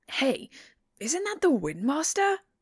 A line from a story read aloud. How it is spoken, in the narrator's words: In his wake are shouts of